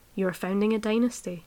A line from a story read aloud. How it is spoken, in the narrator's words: said